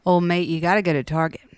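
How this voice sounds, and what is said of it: Weak put-on Irish accent. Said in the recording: “in an Irish accent ... Phoned it in”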